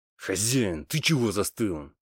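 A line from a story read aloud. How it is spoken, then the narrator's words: Irritated, curt. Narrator (Russian): раздраженно бросил я трактирщику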